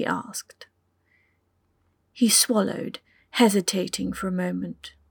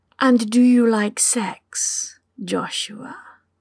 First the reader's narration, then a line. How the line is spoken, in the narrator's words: purred